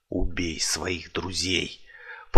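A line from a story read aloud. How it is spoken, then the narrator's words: Barely audible whisper. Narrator (Russian): еле слышно прошептал ему на ухо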